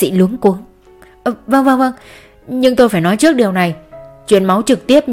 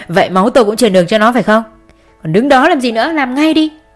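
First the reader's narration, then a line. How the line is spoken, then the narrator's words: Loud laugh. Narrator (Vietnamese): Long cười lớn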